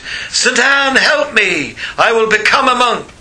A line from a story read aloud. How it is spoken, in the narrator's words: he cried out to his father's patron saint